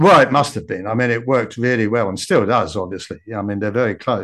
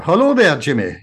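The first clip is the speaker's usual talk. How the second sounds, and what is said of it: Put-on Scottish accent. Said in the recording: “a Scottish accent”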